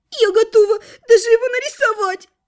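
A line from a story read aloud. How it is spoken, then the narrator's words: Tearful sniffling half-elf. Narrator (Russian): Сквозь слезы хлюпнула носом полуэльфийка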